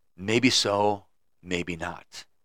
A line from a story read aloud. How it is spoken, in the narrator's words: the wise man just stared at him and very calmly said